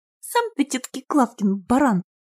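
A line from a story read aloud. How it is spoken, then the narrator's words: Snapping retort. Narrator (Russian): огрызнулась Люба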